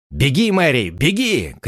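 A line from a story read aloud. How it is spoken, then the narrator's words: Shouted. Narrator (Russian): крикнул он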